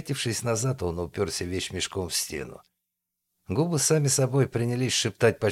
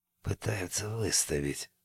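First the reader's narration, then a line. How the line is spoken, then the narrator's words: Whisper, man. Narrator (Russian): прошептал немец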